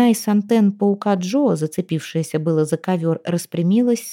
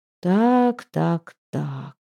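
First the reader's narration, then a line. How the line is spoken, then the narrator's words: Drawn out. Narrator (Russian): протянул Пит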